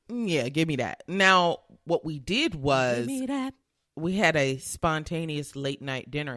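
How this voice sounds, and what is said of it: Slightly raspy voice. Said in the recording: “I can hear it in your voice. I know my voice is a little raspy, but I feel like I can hear it in yours too... I just woke up from a nap. That's probably where the raspiness is coming from.”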